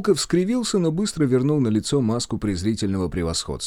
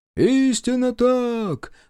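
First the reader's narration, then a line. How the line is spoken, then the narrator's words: Shout from the crowd. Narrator (Russian): выкрикнул кто-то из толпы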